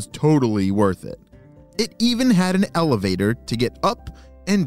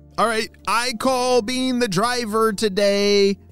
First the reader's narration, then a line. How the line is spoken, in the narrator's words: shouted Neil